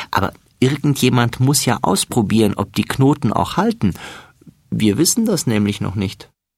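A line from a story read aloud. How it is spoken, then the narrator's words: Laughing. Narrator (German): lacht Florian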